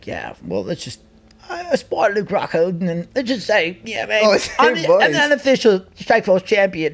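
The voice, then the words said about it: Put-on British accent. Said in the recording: “That's a great fucking impression of the UK ... It was awful, not good ... it sounds pretty good to me”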